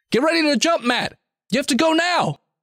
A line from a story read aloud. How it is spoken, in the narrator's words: Art screams from the end of the bridge